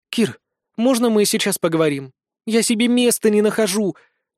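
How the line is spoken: Timid request. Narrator (Russian): робко попросила Вика

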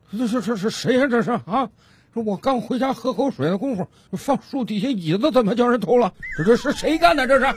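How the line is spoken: Old man muttering to himself. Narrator (Chinese): 老大爷 自言自语的嘟囔道

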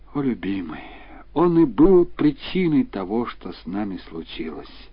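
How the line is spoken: Sighing speech. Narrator (Russian): госпожа Будур вздохнула и молвила

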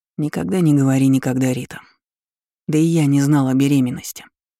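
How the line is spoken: Plain. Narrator (Russian): сказал я

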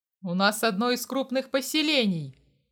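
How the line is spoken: Growled. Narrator (Russian): прорычал Дима

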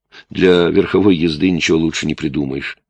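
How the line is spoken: Plain. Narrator (Russian): сказал он

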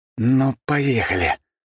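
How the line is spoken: Angry hiss. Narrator (Russian): злобно прошипел я

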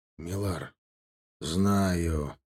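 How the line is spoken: Through gritted teeth. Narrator (Russian): процедил капитан

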